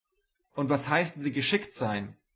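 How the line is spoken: Exclaiming. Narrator (German): rief er aus

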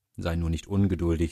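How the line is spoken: Plain. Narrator (German): sagt Schneeweißchen

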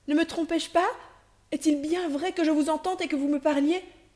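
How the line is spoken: Exclaiming. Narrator (French): s'écria-t-elle

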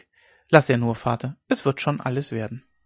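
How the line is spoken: Calm reply. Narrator (German): Hauke erwiderte ruhig

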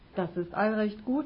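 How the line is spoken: Plain. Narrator (German): antwortete er

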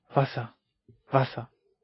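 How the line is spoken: Sick woman whimpering. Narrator (German): wimmerte die Kranke

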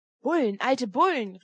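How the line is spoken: Shouts from all around. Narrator (German): rief es rundherum

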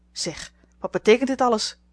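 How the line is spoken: Old lady calling out. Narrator (Dutch): riep de oude dame

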